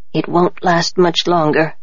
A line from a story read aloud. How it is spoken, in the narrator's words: Nobu whispered to me